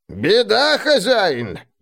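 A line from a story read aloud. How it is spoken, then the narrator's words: Creaky old soldier voice. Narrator (Russian): проскрипел старый ландскнехт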